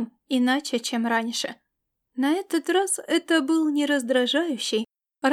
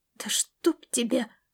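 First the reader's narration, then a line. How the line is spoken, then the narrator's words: Flustered groan. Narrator (Russian): простонал он, чувствуя, как кровь бросилась в лицо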